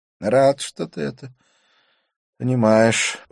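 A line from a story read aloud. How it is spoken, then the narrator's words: Sigh. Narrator (Russian): он вздохнул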